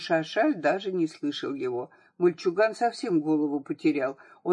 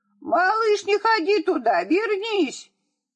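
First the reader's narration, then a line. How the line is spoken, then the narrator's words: Old man shouting after. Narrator (Russian): Старик кричал ему вслед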